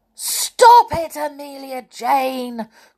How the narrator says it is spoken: cried Tom when he got the cork in his eye

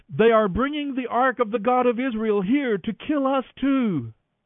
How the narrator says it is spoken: when the people of Ekron saw it coming, they cried out

